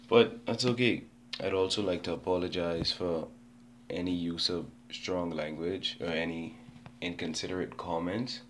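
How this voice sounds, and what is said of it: Voice sounds sick. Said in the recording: “apologize for my voice. I'm a bit under the weather”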